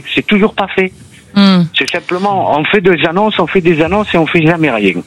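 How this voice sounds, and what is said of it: Perpignan southern French accent. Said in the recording (French): “l'accent de Perpignan”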